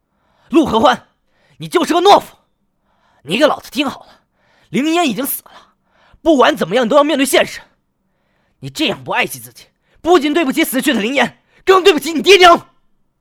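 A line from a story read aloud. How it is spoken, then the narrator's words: Furious cursing. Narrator (Chinese): 应喜怒从中来 破口大骂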